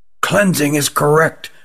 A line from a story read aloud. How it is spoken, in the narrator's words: whispered Rugum to Jilin